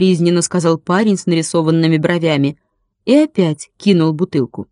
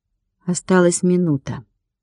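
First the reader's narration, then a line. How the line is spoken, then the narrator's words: Very calm. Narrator (Russian): как-то очень спокойно сказала Ника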